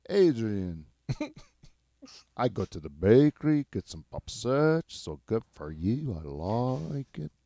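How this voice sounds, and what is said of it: Impression with slight Mexican accent. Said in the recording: “This is my impression of my friend Adrian's dad ... It's a little Mexican ... you might say his dad sounds Mexican because I'm nailing the impression”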